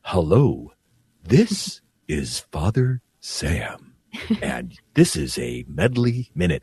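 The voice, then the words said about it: Very slow, creepy imitated voice. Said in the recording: “I think I'm going to try to imitate him ... why are you talking so slow? ... It was kind of creepy how slow you were talking”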